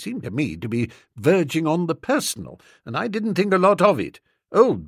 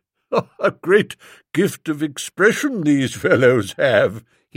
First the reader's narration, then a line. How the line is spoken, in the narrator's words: he chuckled, very trenchant